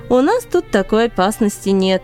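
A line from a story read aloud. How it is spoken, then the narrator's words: Laughing. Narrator (Russian): рассмеялся Кала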